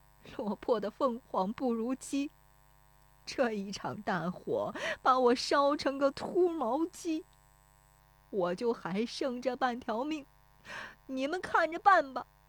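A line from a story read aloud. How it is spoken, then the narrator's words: Crying, lamenting. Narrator (Chinese): 石有福 对着烧塌的房子哭说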